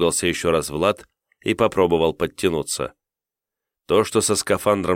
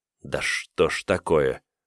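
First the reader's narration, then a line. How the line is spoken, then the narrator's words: Annoyed mutter. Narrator (Russian): пробормотал с досадой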